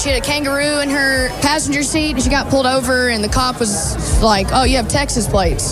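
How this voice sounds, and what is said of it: Broad American accent. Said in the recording (Dutch): “dat plat Amerikaanse accent”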